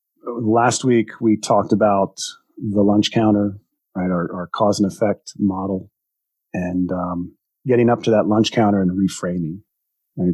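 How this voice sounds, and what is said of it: Slightly congested, sick-sounding voice. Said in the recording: “forgive me for my voice today. I've got a little bit of a cold”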